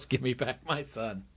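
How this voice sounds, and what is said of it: Imitates another person's voice. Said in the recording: “Good Mel Gibson impression.”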